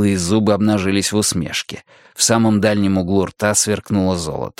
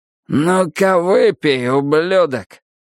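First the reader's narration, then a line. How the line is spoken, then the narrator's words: Hoarse rasp. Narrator (Russian): Прохрипел другой голос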